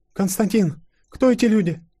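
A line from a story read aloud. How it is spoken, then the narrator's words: Anxious, stammering. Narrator (Russian): С заполненными тревогой глазами пролепетала Анастасия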